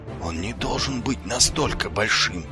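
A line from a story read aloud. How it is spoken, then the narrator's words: Muttering under breath. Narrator (Russian): пробормотал себе под нос Ваймс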